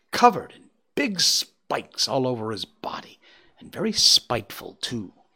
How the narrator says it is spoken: exclaimed Feline

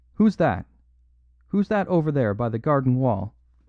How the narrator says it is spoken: the unnerved Galloway called out sharply

